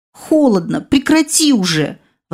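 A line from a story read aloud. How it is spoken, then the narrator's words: Exclaimed. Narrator (Russian): воскликнула я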